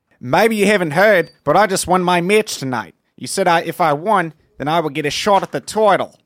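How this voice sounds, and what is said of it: Pretty good put-on accent. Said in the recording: “It's a good accent. ... Pretty good. ... Like it's pretty good. Really good.”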